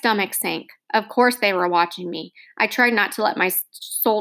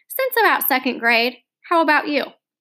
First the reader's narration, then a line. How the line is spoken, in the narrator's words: said, a little more brightly